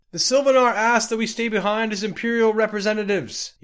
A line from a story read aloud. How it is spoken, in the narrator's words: yelled Liades Eurus